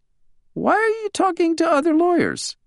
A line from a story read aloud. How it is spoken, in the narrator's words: Wally gasped for air, then managed to ask in a squeaky voice